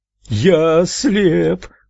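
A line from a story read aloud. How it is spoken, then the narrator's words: Man's loud piercing scream. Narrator (Russian): громким пронзительным голосом завопил мужчина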